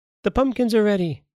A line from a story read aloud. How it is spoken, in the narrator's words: they cried